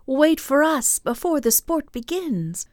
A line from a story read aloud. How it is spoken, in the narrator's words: The little waves cried